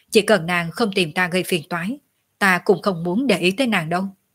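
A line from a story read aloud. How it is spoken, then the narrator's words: Cold, dismissive. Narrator (Vietnamese): Tiểu Lôi biểu môi, chỉ lạnh lùng nói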